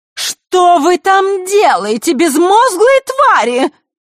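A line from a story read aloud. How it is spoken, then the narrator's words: Shrill, sudden shriek. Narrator (Russian): Визгливый голос Елены раздался, как гром посреди ясного неба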